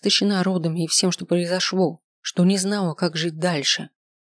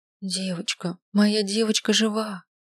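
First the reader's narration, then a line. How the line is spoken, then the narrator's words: Whisper turning joyful exclamation. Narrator (Russian): прошептала Розалина, просияв, воскликнула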